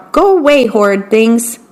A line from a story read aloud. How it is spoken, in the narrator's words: he would shout